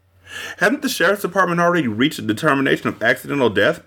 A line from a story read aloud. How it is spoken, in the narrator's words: Parkhurst asked